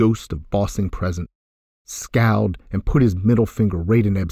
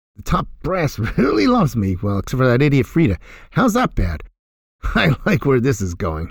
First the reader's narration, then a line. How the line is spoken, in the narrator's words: he laughed